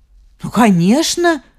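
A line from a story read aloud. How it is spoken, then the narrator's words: Exclaimed. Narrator (Russian): воскликнула она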